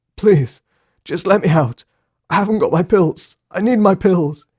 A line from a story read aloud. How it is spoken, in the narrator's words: he sobbed in another attack of mania